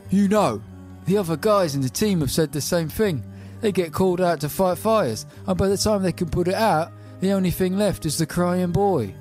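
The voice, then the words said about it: Put-on 1980s Rotherham accent. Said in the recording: “I'm gonna try and do a period correct, you know, Thatcher era Rotherham accent.”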